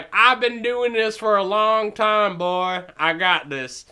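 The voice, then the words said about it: Poor put-on Southern accent. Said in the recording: “your southern accent is not very good.”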